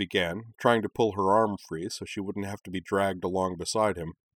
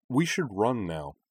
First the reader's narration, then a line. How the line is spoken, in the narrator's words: said Anakin calmly